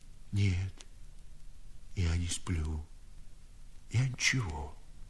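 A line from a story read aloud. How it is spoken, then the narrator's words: Old man, plain. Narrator (Russian): сказал старик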